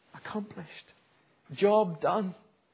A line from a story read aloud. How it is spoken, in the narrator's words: he cries